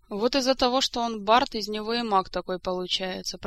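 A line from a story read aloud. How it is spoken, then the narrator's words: Grumbling. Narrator (Russian): проворчала Стелла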